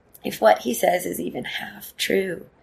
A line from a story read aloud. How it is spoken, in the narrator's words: whispers